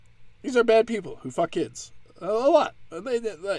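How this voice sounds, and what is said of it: Usual voice. Nothing is said of it.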